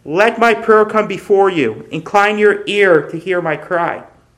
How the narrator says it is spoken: the psalmist cries out

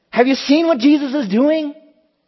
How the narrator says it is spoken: children are running here and there throughout the temple shouting

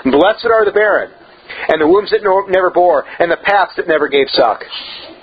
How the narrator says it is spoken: it was exclaimed in Luke 23:29

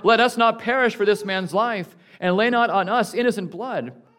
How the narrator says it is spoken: The mariners cried out

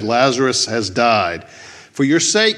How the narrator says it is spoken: he said

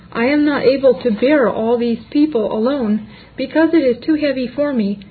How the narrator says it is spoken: Moses exclaimed

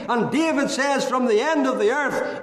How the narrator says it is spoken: I cried

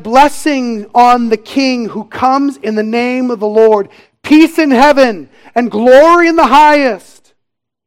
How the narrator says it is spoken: they shouted

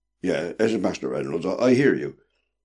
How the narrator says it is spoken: stammered the sailor

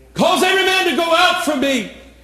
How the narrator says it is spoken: Joseph could not refrain himself and he cried

